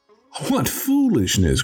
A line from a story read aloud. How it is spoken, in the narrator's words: cried one